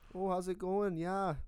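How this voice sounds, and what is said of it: Put-on Canadian accent, sounds Wisconsin. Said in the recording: “do the accent ... start with Canada ... That almost sounds good. More. That sounds more Wisconsin.”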